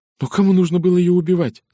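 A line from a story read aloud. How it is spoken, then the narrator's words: Rapid chatter. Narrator (Russian): затараторила Женевьев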